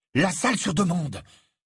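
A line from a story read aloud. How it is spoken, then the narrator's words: Exclaimed. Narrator (French): s'exclama Harry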